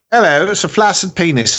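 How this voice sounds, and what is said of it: Put-on British accent. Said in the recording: “say flaccid penis in a British accent”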